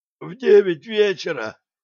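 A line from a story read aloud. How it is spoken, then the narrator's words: Hoarse wheeze. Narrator (Russian): просипел охранник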